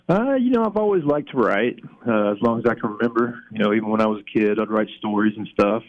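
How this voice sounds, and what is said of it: Southern American accent. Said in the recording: “people who are listening are going to detect a Southern accent ... I'm originally from Memphis, Tennessee ... I don't think the accent's ever going to go away”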